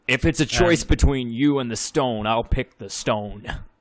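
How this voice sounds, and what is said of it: Englishman's broad put-on American accent. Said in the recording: “Has that crass American accent. ... It's the Gregory House accent. It's the every Englishman doing an American accent.”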